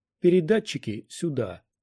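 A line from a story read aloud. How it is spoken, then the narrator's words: Peaceable demand. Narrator (Russian): миролюбивым тоном потребовал Квай-Гон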